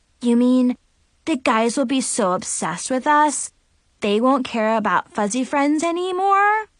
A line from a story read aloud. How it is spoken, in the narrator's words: Tiffany asked